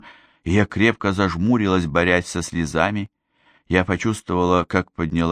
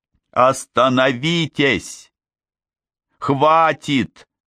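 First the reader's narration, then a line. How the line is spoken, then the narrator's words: Scream. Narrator (Russian): закричала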